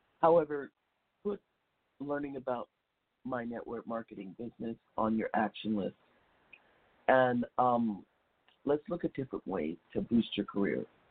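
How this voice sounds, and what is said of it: Scratchy voice. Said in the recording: “I'm still recuperating from a bad cold. I know you can hear the scratchiness in my voice.”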